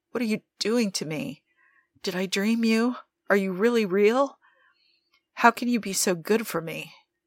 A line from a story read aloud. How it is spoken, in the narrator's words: Nikki whimpered, Joe's cock still trapped in his throat